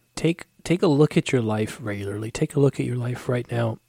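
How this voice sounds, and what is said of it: Strained, failing voice. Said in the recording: “my voice is going crazy ... drink some warm tea with honey”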